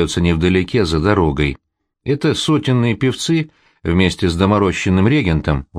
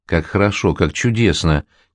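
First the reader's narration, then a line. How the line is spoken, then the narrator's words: Quiet, dreamy. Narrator (Russian): тихо говорит, мечтательно глядя в черную ночь, Ирина Петровна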